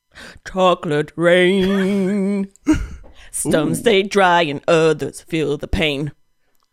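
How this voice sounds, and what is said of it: Imitates another person's voice. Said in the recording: “Everyone's best impression of a chocolate rain.”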